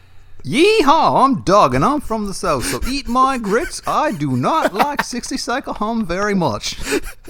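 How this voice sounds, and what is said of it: Bad put-on Southern accent. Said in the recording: “that's what I picture Doug's Southern accent sounding like... Really bad... I don't know if that was like a worse Doug accent or a worse fucking Southern accent”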